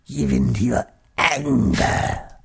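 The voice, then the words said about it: Average impression of the Emperor. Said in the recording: “absolutely average impersonation of the Emperor”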